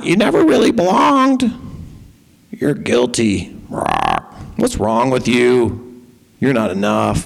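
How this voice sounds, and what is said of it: Shrill cawing crow voice. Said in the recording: “that crow that shrilly caws into the ear ... my last crow imitation”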